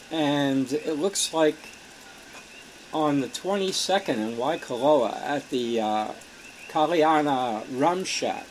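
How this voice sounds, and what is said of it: Strained, fading voice. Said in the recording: “losing my voice steadily”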